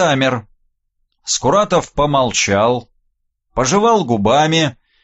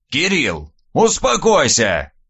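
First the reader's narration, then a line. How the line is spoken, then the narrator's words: Sudden bark, old man. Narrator (Russian): вдруг рявкнул дед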